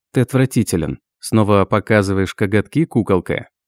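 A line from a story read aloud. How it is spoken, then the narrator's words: Mocking question. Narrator (Russian): насмешливо спросил Хайсам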